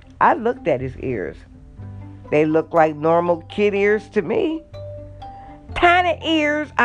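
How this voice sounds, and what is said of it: Usual voice. Nothing is said of it.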